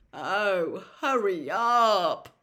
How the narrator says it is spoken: Ron moaned

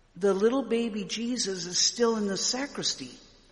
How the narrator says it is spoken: I whispered

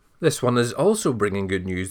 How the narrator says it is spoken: the king said

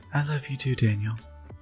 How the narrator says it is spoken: Laura whispered to him

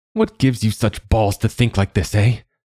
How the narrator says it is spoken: he spat

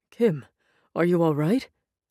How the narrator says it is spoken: Adonai said, anxiously

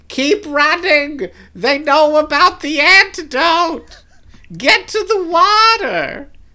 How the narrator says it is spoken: Tay lets out a great shriek and says

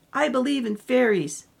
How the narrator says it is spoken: shout

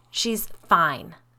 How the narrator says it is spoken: snapped

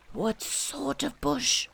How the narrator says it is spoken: whispered Pooh to Piglet

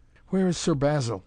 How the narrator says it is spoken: he gasped

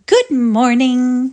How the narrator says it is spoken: she cried in her sweet, affected drawl

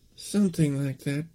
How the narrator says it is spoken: Cindy murmured

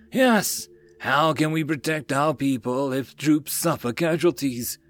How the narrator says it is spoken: The rest suddenly cried out in injustice

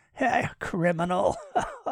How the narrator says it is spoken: Malcolm laughed

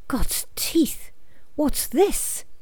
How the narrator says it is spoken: Arthur's breath hissed

